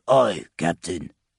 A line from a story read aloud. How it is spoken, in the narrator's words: the demon grunted